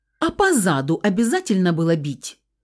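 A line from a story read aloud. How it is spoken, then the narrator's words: Indignant question. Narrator (Russian): возмущенно вопросила я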